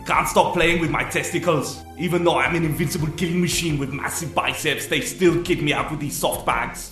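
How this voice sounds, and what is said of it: Hungarian accent. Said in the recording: “the only one with a Hungarian accent”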